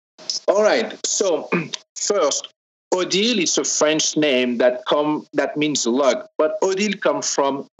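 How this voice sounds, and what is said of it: Strong French accent. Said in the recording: “where is that wonderful accent from? ... I know I have a strong French accent”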